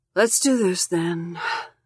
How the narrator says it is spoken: she says, sighing

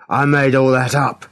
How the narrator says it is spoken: shouted

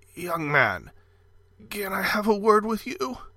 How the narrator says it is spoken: A voice quavered

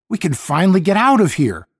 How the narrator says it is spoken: Deke cried

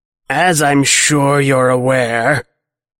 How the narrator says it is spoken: Clocks rasps

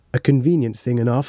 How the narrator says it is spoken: said Dr

